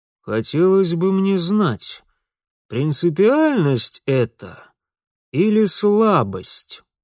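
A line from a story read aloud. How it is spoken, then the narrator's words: Gloomy, through gritted teeth. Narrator (Russian): хмуро процедил дядя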